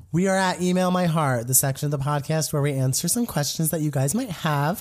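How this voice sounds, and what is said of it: Voice sounds off, not normal. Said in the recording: “my voice is not.”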